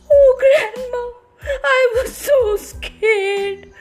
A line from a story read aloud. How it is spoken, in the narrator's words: sobbed Little Red Riding Hood